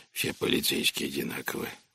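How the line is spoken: Grumbling low hoarse old man. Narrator (Russian): ворчал старик низким хриплым голосом

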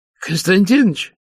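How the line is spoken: Hoarse voice from a cold. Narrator (Russian): сказал Сорокин простуженным голосом

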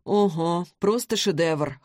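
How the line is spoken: Amused snort. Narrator (Russian): хмыкнул Вик

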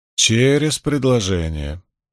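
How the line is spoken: Grumbled. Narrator (Russian): проворчала Найниф

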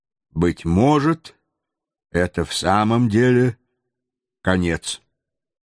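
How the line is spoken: Calm. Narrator (Russian): Сам майор промолвил спокойным голосом

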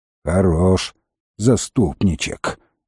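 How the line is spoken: Low grumble, meant to be heard. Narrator (Russian): ворчала она вполголоса, но так, чтобы он слышал

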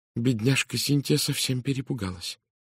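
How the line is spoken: Clear quiet voice. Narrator (Russian): произнесла миссис Кавендиш четким тихим голосом

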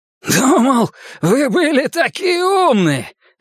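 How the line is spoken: Hoarse shout. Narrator (Russian): хрипло крикнул он

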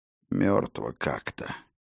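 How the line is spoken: Mutter. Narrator (Russian): пробормотал сухая рука

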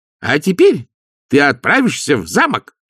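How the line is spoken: Barked. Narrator (Russian): рявкнул нянюшка

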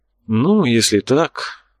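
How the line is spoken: Sighing. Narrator (Russian): Ерми вздохнул

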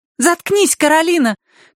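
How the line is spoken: Girl shouting. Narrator (Russian): крикнула рыжая девочка

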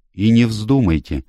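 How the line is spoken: Angry reply. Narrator (Russian): сердито откликнулась сестра Хопкинс

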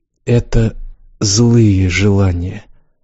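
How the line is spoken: Almost completely hoarse. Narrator (Russian): сказала Яска, почти совсем охрипше

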